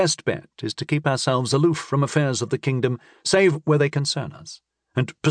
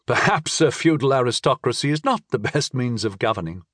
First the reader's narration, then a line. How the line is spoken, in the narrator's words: I chuckled